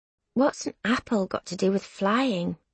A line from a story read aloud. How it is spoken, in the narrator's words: I murmur